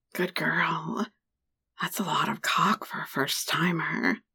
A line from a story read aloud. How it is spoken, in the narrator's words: whispered against my ear, with a hint of praise in his voice